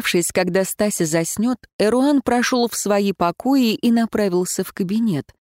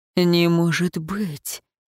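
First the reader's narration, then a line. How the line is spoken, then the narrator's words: Breathless sudden realization. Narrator (Russian): выдохнул Эруан, внезапно осознав невероятное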